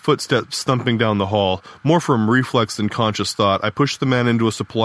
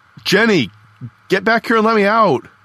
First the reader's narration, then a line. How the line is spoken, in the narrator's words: yelled through the wire mesh window in the door